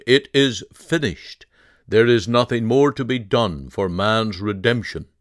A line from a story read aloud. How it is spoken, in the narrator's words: He cried out